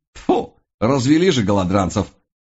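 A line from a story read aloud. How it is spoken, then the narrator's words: Snort. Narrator (Russian): фыркнул он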